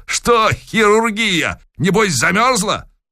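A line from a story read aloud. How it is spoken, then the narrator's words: Cheerful shout. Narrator (Russian): весело прокричал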